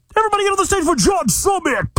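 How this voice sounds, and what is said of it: Hyped announcer voice. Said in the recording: “the announcer voice”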